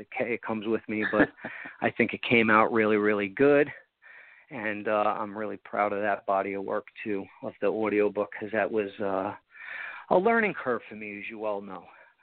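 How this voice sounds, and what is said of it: Long Island accent. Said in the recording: “sorry about the Long Island accent. I can't get rid of it.”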